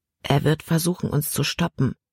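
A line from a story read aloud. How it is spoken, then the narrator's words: Quiet warning. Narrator (German): warnte Caleb immer noch leise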